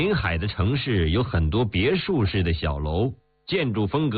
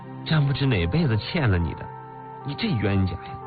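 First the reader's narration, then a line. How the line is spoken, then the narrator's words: Sighing. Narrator (Chinese): 田宇叹息道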